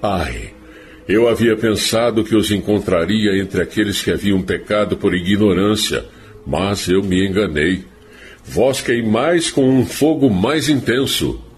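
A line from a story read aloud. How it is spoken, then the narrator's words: Exclaiming. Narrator (Portuguese): ouviu-se ela exclamar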